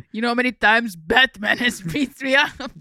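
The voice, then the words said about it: Put-on Russian accent. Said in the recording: “now you turned Russian”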